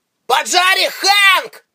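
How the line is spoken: Shouted. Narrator (Russian): Рейнер крикнул

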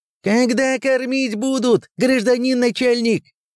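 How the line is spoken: Shouted out. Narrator (Russian): выкрикнул кто-то из прибывших

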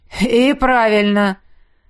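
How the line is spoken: Chuckle from another room. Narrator (Russian): хохотнул из раздевалки Изиль

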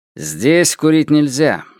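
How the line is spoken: Stern policeman. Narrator (Russian): строго сказал полицейский

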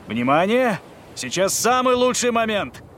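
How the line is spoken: Shout. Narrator (Russian): крикнул Клаудио

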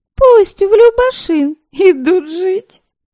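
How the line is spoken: Giggling prompt from afar. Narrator (Russian): подсказала из угла Веремила и хихикнула

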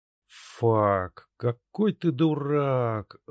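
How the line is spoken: Muffled groan. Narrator (Russian): Спрятав лицо в ладонях, застонал хмыренок Дирк

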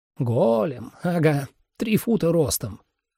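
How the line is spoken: Quiet muttering. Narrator (Russian): пробормотал он так, что слышно было только мне

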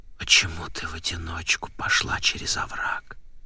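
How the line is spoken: Insistent whisper. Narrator (Russian): допытывался он шепотом

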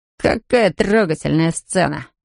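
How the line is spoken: Mocking. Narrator (Russian): насмешливо улыбнулся Джей Ди

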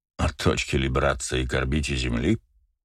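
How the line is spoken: Snorted. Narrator (Russian): фыркнул Фишер

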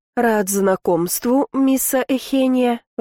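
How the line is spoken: Strained, forced out. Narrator (Russian): выдавил он наконец

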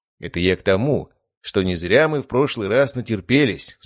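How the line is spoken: Plain. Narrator (Russian): сказал я

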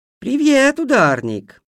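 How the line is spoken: Cheerful. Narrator (Russian): весело сказала она

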